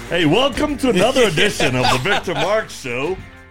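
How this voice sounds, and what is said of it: Exaggerated radio announcer voice. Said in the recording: “our radio voice on.”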